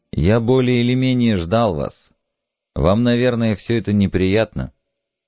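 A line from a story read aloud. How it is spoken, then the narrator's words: Soft speech. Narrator (Russian): мягко сказал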